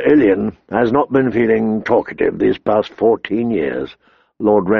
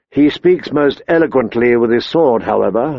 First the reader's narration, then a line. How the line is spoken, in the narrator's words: the queen said